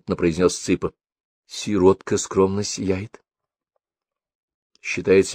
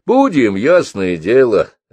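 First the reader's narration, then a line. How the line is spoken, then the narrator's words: Cheerful reply. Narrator (Russian): радостно отвечает Митя друзьям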